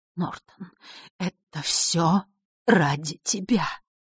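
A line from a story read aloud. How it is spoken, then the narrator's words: Silent mouthed whisper. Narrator (Russian): прошептала она одними губами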